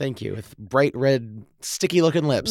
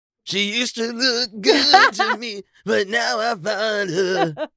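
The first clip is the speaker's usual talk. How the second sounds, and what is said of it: Raspy singing voice. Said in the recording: “you got a nice little raspy voice.”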